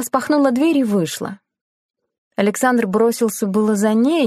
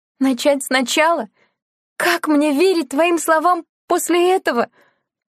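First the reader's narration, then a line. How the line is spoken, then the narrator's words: Sobbing. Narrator (Russian): рыдала Лена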